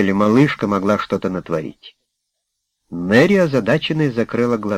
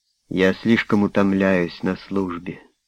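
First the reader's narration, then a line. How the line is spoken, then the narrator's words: Sighed. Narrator (Russian): вздохнула Мэри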